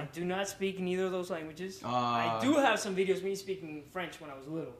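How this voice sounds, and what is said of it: Slight Venezuelan Spanish accent. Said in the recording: “you got a little bit of an accent, right? You're Spanish, right? ... So I'm from Venezuela.”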